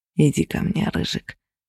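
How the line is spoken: Whisper. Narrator (Russian): шептал голос

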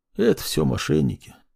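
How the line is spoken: Old man, hollow voice. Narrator (Russian): глухо ответил старик

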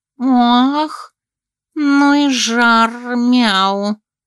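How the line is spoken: Slow drawn-out drawl. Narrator (Russian): Тягуче протянула Джинджу

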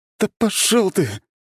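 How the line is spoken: Whimpering. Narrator (Russian): проскулил морально нестойкий хакер

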